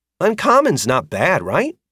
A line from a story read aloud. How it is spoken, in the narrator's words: asked brightly